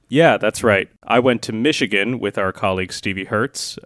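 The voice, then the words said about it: American accent. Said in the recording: “They all sound very bad in my American accent.”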